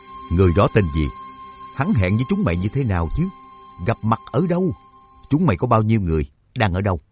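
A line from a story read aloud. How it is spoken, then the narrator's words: Disbelieving harsh question. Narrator (Vietnamese): Trác Mộc Cường Ba vẫn không tin, gằn giọng hỏi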